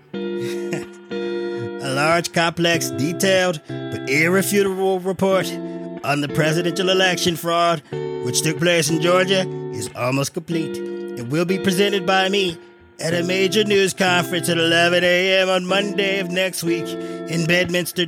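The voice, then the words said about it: Limited Donald Trump impression. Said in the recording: “I guess I can do the Trump, my limited fake Trump impersonation.”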